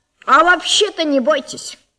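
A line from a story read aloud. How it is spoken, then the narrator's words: Loud. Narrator (Russian): громко сказал он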